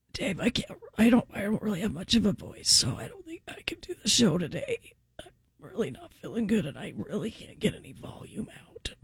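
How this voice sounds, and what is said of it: Faked weak, quiet sick voice. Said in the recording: “I'm doing my sick voice ... That's pretty good, because I couldn't even hear that.”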